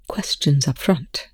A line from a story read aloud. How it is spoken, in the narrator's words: Rush said, his voice hard